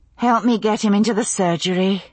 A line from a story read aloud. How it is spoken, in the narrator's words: I said, sighing